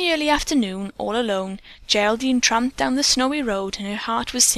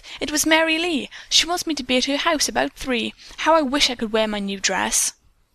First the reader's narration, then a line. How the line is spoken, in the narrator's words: the seamstress replied, and then, whirling around, she exclaimed